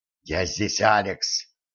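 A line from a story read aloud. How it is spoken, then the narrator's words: Whispered. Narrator (Russian): прошептал он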